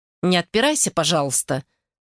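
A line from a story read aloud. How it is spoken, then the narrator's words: Stern. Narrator (Russian): строго сказала Вика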